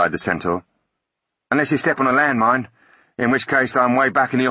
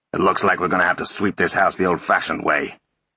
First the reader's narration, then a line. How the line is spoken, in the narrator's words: he grumbled